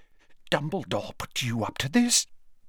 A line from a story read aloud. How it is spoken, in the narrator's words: whispered Slughorn